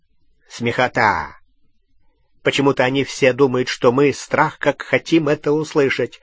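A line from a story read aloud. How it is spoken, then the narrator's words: Snorting. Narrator (Russian): хмыкнул Струпьер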